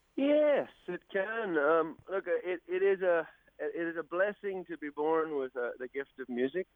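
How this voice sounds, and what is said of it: Irish accent. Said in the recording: “that's not obviously a local Australian accent I'm hearing there ... I'm obviously with an accent like this. I'm an Irishman”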